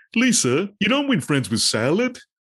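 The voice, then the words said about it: Poor Homer Simpson impression. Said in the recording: “To quote Homer J. Simpson ... Worst impersonation”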